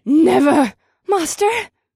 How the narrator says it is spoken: the women's voices screaming at once

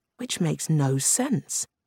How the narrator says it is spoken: Ito said

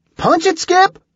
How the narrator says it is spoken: Julie shouted

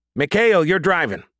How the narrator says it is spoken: the sergeant shouted

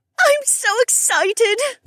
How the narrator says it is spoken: Becca squealed

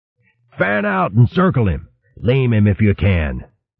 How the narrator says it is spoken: their leader rasped out

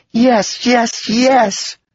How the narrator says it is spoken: let out a squeal of delight, jumping up and down, screaming

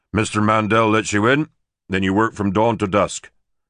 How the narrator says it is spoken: Derek said

